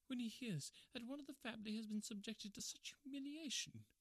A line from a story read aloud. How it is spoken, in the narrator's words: he murmured